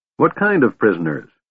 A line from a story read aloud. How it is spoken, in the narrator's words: he asked irritably